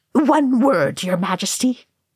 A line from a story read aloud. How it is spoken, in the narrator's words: Oin snapped